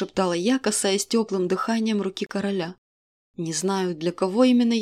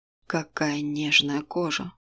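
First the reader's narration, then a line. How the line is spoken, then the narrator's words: Sluggish man's mutter. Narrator (Russian): пробормотал мужчина заторможенно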